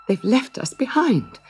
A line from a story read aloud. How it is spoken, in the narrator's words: sobbed Gretel